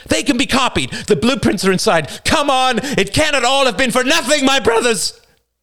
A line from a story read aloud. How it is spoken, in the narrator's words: Screaming, the men